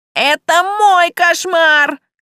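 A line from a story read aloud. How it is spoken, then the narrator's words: Screaming. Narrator (Russian): завопил он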